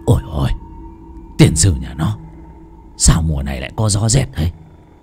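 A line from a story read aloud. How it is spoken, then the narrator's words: Woman sobbing, growing louder. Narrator (Vietnamese): tiếng người đàn bà khóc thút thít, lúc đầu thì nhỏ, sau cứ lớn dần lớn dần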